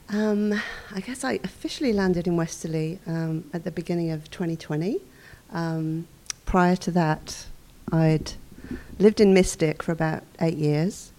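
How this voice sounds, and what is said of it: Slight non-local accent. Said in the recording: “You have a little bit of an accent going on, I noticed.”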